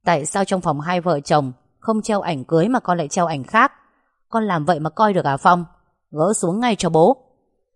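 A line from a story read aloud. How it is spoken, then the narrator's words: Loud scolding father. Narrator (Vietnamese): Bố lớn tiếng nói với Phong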